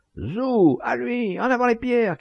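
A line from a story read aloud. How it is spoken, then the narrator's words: Boy shouting. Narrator (French): cria un gamin de 14 ans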